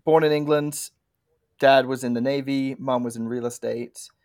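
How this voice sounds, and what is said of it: English accent. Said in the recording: “As you can probably tell by my accent, I'm not from the Denver, Colorado area originally.”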